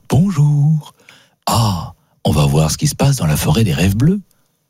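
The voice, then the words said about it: Imitates another person's voice. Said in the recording (French): “tu le dis avec la voix de Paul Breitner.”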